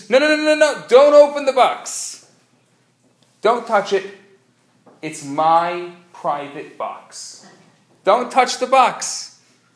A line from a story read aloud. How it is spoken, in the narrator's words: his wife screams